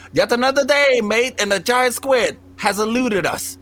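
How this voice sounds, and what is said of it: Imitated Australian accent. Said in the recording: “with this Australian ass fucking accent... his stupid Australian accent”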